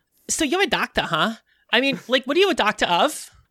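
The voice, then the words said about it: Harley Quinn character voice impression. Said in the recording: “I actually do an impression of Harley Quinn, and now I'm going to have to do that for this entire time.”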